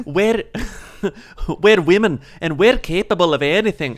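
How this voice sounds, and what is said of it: Bad put-on Scottish accent. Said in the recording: “No, that's Scottish. That's very bad. ... me doing bad accents is canon now.”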